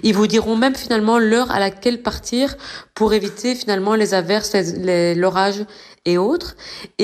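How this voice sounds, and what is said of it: Slight southern French accent. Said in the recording (French): “a déjà pris un peu l'accent du Sud”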